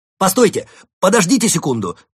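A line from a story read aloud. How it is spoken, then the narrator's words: Shouting. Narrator (Russian): закричал он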